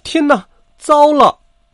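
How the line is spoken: Loud cry. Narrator (Chinese): 他大叫道

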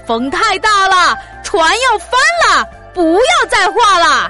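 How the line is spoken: Desperate repeated shouting. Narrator (Chinese): 皇帝被海水打得浑身湿漉漉的……不住的叫喊

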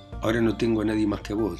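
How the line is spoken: Plain. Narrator (Spanish): dijo Raskolnikov

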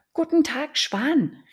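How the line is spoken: Calling upward. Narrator (German): rief sie zu ihm hinauf

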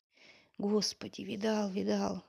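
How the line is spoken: Whispered. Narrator (Russian): шепнул Турбин

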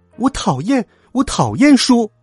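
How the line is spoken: Shouting. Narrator (Chinese): 米娜总会 叫

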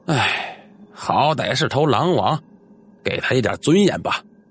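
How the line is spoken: Sighing. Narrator (Chinese): 古老西拦下来了，叹息说道

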